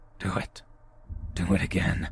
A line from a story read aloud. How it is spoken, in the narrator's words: I hear a raspy, aggressive voice say